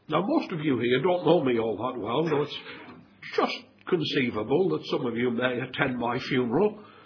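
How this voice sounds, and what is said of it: Northeastern accent. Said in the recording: “my dubious northeastern accent”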